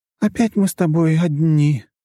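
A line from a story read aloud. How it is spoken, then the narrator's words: Feigned sad sigh. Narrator (Russian): как-то наигранно грустно вздохнула Лора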